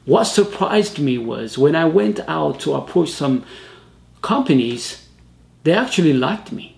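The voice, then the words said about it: Speaks with a foreign accent. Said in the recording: “my accent ... Oh, we like your accent.”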